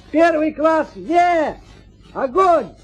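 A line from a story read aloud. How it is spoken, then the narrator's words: Shouting at full force. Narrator (Russian): закричал, что было сил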